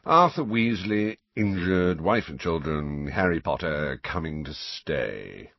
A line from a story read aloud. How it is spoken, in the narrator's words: recited Phineas in a bored voice